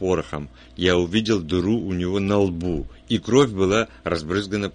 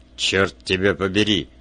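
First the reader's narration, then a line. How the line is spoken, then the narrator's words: Angry grumble. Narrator (Russian): сердито пробурчал Вульф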